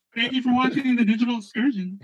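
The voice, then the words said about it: Woman's voice. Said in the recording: “Why are you a woman? Are you Jennifer Hudson or what?”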